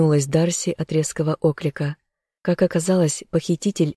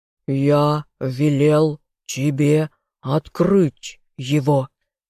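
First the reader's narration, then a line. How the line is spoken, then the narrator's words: Shapeshifter's growl. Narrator (Russian): зарычал метаморф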